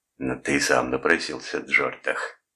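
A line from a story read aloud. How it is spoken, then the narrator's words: Hissing. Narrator (Russian): прошипел Фальконетти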